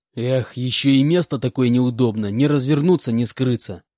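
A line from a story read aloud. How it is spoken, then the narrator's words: Irritated complaint. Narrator (Russian): раздраженно посетовал Буран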